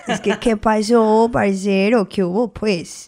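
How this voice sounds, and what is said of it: Put-on Colombian Spanish accent. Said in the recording (Spanish): “empieza a hablar como colombiana ... A ver, tú un acento colombiano ahí para que la gente vea.”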